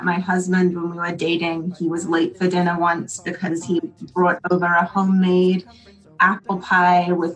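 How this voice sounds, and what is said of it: British accent. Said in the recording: “your accent is ... British. I grew up in England.”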